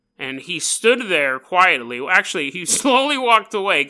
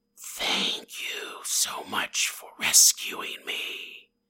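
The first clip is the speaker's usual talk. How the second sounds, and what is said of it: Annoying snake character voice. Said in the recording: “the snake goes ... doing that voice. That's annoying.”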